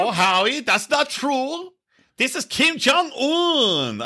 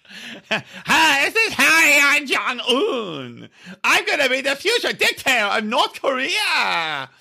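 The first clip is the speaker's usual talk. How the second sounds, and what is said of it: Imitates another person's voice. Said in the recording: “They all sound exactly the same. can't do impersonation. ... That's a combination of the two of you.”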